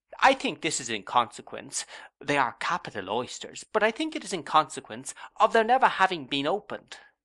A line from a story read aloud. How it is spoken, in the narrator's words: said Traddles, cheerfully